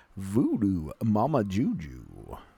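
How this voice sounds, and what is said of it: Thick slow drawling put-on accent. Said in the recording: “You want more of a molasses in your accent.”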